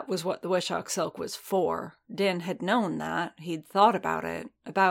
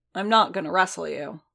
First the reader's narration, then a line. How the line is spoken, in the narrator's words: Boba said flatly